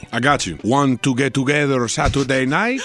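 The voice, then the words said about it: Put-on Latino accent. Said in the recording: “That voice. ... not that accent. ... He's Latino, but stop using that voice.”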